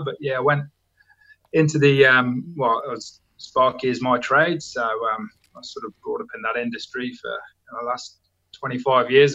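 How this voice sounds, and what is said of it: English Midlands accent. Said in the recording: “based on your accent ... from England, obviously. ... a place called Worcester in the Midlands near Birmingham”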